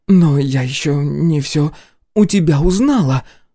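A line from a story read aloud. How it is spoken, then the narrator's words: Faltering objection. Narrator (Russian): слегка запинаясь, возразила сатаница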